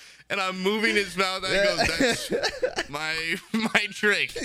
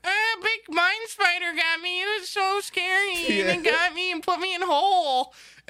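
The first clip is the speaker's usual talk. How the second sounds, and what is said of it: Gnome character voice. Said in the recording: “giving him my like a voice impression of a gnome”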